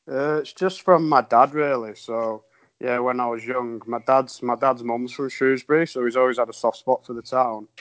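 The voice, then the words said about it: Northern English accent. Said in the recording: “my northern twang isn't the best accent for a podcast”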